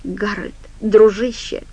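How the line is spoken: Muttered. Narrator (Russian): пробормотал Ларри

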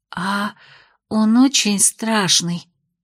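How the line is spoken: Trembling voice. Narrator (Russian): спросила Майя дрогнувшим голосом

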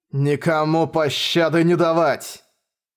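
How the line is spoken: Roaring crowd. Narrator (Russian): 20 000 практиков и орда неодемонов взревело

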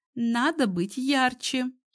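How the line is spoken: Giggling. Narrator (Russian): Катя снова хихикнула

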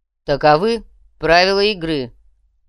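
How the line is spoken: Loud speech. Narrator (Russian): громко произнес Мечислав

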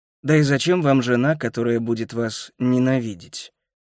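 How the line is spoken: Grumbling mutter. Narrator (Russian): Келлер буркнул

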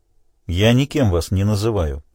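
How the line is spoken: Calm objection. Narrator (Russian): спокойно возразил Морган Оксфорд

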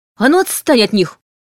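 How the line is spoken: Shouted. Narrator (Russian): крикнула Анна

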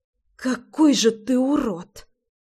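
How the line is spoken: Girl hissing. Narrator (Russian): Прошипела девчонка

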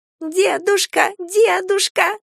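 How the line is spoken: Squeaky imitation of child's voice. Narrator (Russian): подражая детскому голосу, пропищал Галя

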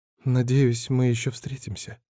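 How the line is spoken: Calm, hurt murmur. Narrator (Russian): спокойно пробормотала она, хотя на ее лице явно читалась обида

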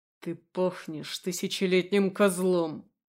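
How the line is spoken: Growl. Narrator (Russian): рыкнул я

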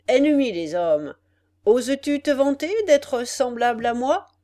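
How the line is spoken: Laughing monster. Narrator (French): dit le monstre en riant

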